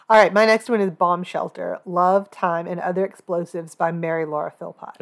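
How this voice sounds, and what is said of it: Voice sounds sick with a cold. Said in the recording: “tell from my voice, I have a cold”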